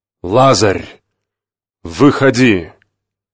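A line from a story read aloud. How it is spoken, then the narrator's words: Loud cry. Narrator (Russian): воскликнул громким голосом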